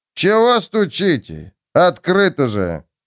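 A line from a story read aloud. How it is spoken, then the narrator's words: Sluggish grumble. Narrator (Russian): вяло проворчал мужик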